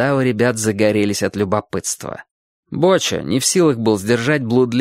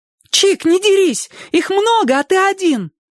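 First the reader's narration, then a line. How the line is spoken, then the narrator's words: Fearless shout. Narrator (Russian): бесстрашно крикнула Сонька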